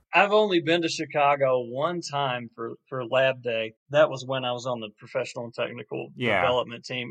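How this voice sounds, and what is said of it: Rural country accent. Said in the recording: “can't tell by my voice, such a country kid”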